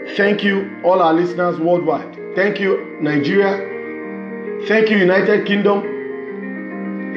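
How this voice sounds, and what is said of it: Speaks with a noticeable accent. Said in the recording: “with this accent”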